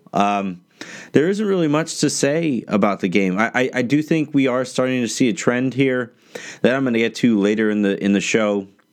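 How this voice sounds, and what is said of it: Sick, strained chest-cold voice. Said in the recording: “you guys can probably hear it in my voice, I'm getting over a chest cold ... I'll start to sound a little bit better ... so long as my throat holds up”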